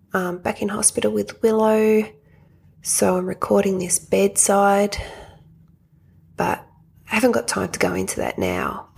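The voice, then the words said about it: Whispering. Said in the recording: “Sorry for the whispering.”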